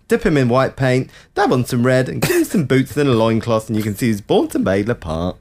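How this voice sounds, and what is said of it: Imitates another person's voice. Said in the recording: “Why are you talking like that? ... Because Matt Lucas talks like that sometimes. ... That's quite a good impression, actually. That's quite funny.”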